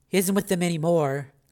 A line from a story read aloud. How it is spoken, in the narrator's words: said Raven